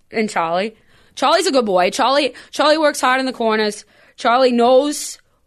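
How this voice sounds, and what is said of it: Put-on Boston accent. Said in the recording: “I have a Bostonian character ... I have a super good Boston accent”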